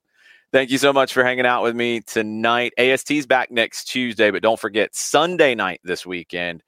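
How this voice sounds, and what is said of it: Slightly raspy voice. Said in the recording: “my voice is a little raspy today, because I was getting into it. I was yelling a little bit.”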